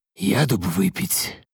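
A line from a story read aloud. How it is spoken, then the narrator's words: Whisper. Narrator (Russian): прошептал Азраил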